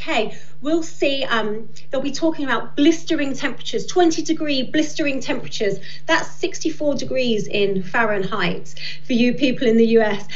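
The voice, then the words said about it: British accent. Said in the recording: “I love the accent. Don't get me wrong, it's wonderful.”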